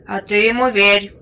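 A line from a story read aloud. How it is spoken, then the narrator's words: Muffled low drone. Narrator (Russian): прогудел другой боец из-под поднятого ворота шинели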